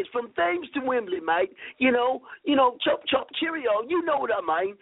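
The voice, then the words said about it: Put-on British accent. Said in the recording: “your British accent”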